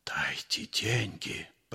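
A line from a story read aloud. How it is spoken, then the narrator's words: Hateful whisper. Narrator (Russian): прошептал он с ненавистью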